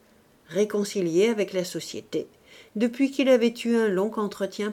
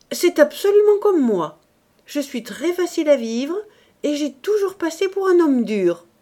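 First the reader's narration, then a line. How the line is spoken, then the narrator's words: Exclaiming. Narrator (French): s'écriait M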